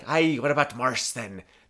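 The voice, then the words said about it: Bad put-on Scottish accent. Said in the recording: “the Scottish butler... That is my horrendously bad Scottish accent.”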